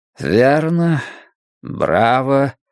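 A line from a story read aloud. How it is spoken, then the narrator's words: Dry. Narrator (Russian): сухо сказал Юрик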